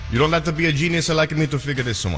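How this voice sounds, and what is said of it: Exaggerated put-on Italian accent. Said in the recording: “accent is amazing... a very natural, a natural Pisa accent... I can barely understand him, though, and I'm Italian”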